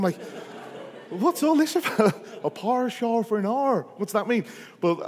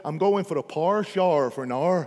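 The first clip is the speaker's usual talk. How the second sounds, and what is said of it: Imitated Northern Irish accent. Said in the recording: “from Northern Ireland ... from Belfast ... it's taken over 25% of my kids' accents ... I know it's power, shower, hour.”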